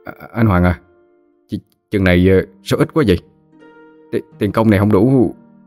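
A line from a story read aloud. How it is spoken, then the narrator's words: Surprised, trembling question. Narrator (Vietnamese): kẻ hơi ngạc nhiên run run giọng hỏi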